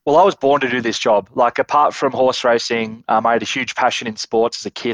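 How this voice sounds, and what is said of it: Australian accent. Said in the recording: “clearly from the accent, Australia”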